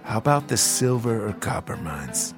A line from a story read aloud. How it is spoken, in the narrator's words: whisper quietly